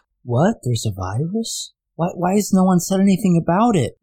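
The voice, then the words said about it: Imitates another person's voice. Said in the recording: “my impersonation of that woman in Iowa”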